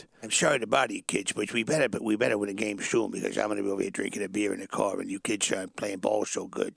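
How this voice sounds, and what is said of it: Imitates another person's voice. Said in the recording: “I do a really good Walter Matthau Bad News Bears impression. ... that's Columbo.”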